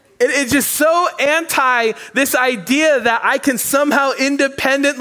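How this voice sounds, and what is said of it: Usual voice. Nothing is said of it.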